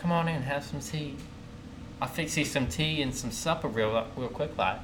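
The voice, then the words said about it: Imitated Southern woman's accent. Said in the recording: “a nice southern accent from a woman”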